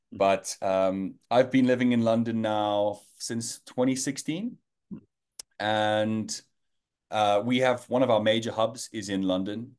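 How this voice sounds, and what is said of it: South African accent. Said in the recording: “Maybe you picked it up from my accent, but I am South African born and bred, Joburg boy.”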